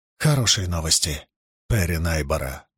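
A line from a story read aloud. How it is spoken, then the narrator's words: Quiet. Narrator (Russian): негромко сказала она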